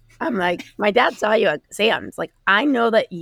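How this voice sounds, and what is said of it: Usual voice. Nothing is said of it.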